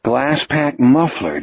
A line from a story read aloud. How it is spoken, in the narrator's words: Jack said, thinking wearily